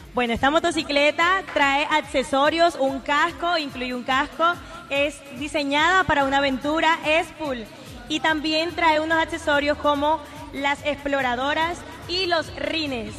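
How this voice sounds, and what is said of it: Radio announcer-like voice. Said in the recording (Spanish): “tiene una voz como de locutora ... Una voz de locutora.”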